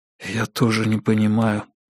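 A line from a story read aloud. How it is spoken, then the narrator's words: Whispered reply. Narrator (Russian): прошептал Брэдли в ответ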